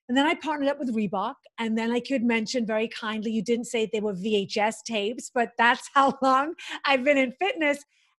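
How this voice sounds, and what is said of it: Strong Liverpool accent. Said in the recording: “I'm this girl from Liverpool. The hardest thing I had to overcome was my accent because no one could understand me ... maybe my accent has something to do with it”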